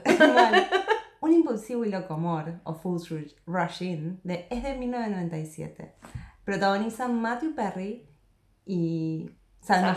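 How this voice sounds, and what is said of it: Mock announcer voice. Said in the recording (Spanish): “en voz de locutora ... nunca debí dejarla hacer la voz de locutora”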